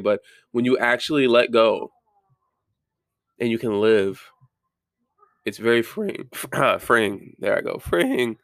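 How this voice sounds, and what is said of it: Voice cracking. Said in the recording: “sorry, my voice is cracking”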